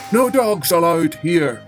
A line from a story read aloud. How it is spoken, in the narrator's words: roared, the gardener